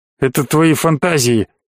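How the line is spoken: Grumbling. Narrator (Russian): проворчал князь

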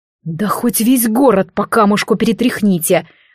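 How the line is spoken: Angry growl. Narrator (Russian): рычал Рыжий на виновато опустивших головы подданных

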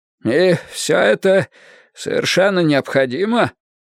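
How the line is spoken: Hoarse, distorted voice. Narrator (Russian): Голос Беррисфорда по-прежнему звучал хрипло и искаженно

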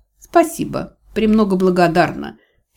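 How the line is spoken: Skeptical snort. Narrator (Russian): с нескрываемым скепсисом фыркнула я

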